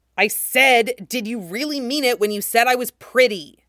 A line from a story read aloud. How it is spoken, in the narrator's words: She says it far too loudly